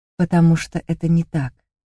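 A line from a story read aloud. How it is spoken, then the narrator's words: Soft. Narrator (Russian): мягко сказал Кир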